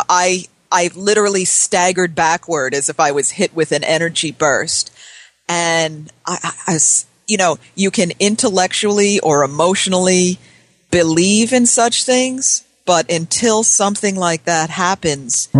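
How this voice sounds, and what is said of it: Choked-up emotional voice. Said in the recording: “all choked up.”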